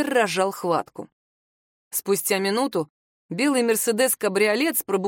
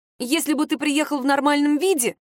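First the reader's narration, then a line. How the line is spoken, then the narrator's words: Snapping. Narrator (Russian): Огрызнулась Надька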